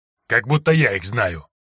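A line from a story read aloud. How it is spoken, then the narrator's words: Grumbling. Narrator (Russian): пробурчал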